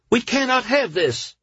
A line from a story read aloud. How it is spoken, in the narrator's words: the woman cried